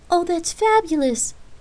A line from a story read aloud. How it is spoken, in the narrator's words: Holly exclaimed happily